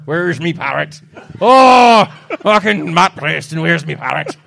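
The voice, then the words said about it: Bad pirate accent, slightly Irish. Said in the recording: “you're actually sounding like a pirate. ... my shit accent of a bloody pirate ... pirate sounding like the slightly Irish”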